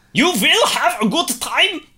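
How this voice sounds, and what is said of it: Put-on German accent. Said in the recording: “Doing the German accent again”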